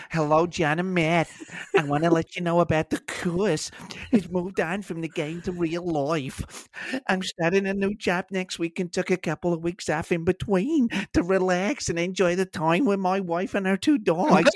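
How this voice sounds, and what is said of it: Woody Allen impression. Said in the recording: “could just do it as Woody Allen”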